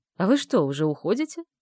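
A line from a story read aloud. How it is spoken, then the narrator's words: Mocking. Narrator (Russian): произнес насмешливо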